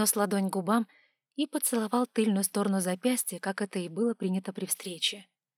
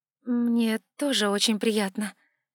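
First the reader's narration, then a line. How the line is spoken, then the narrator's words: Uncertain, smiling. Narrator (Russian): проговорила, неуверенно улыбнувшись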